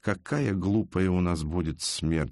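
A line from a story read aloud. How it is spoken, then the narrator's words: Low voice. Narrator (Russian): сказал вполголоса Арсению Амброджо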